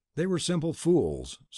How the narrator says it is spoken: said Tanub

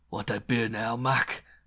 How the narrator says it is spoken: he snarled close to my ear

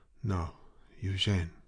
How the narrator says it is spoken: whispered

